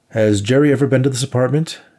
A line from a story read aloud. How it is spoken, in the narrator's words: Nate shouted across the room to Diane